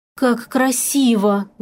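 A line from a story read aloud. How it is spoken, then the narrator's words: Breathless. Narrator (Russian): выдохнула я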